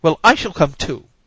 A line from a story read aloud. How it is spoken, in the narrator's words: cried Mrs